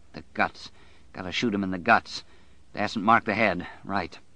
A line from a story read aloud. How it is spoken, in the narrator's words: He muttered to himself